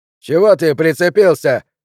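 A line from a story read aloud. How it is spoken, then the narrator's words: Bold shout. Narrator (Russian): крикнул кто-то похрабрее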